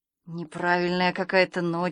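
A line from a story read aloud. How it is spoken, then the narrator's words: Sighing. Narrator (Russian): вздохнул Санька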